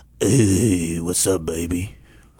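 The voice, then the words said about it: Creepy voice. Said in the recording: “creepy voice ... wrong kind of creepy ... like prison creepy”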